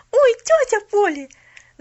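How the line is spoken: Excited shout. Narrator (Russian): Забыв обо всем, закричала она

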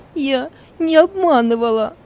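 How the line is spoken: Tearful. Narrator (Russian): Сквозь слезы проговорила Зора

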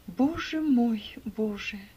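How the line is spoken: Groaning. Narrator (Russian): простонал несчастный

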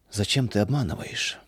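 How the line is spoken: Sad father asking. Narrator (Russian): печально спросил отец

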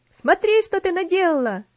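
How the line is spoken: Shouting. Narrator (Russian): закричал Артур

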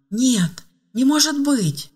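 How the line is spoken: Exclaimed. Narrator (Russian): воскликнула Ева

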